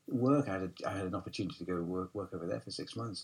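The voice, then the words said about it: Northern English accent with Scottish twang. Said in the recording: “It's an interesting twang to your accent. I feel like the Scottish boarding school's got a role to play as well as the North.”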